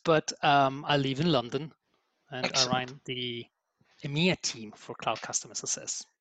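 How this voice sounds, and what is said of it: Italian accent. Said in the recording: “I'm Italian, as you may say, or you may tell from my accent”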